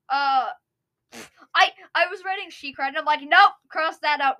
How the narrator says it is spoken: Minty Mist cried

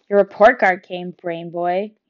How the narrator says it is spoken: shouted after me

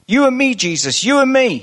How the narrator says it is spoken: yelled at the top of his voice

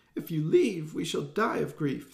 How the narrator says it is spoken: they wailed

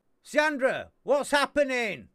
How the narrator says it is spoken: Cedar shouts

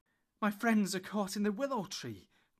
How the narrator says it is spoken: cried Frodo breathlessly

